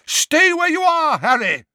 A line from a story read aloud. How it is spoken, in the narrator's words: Dumbledore bellowed